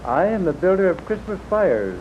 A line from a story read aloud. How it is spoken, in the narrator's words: said gently